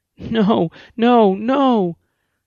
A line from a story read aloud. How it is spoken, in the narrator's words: as she wailed over and over again